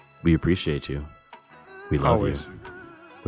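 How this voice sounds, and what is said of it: Usual voice. Nothing is said of it.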